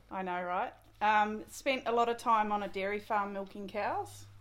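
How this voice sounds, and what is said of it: New Zealand accent. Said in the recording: “So I grew up in New Zealand. ... Could never have told with that accent.”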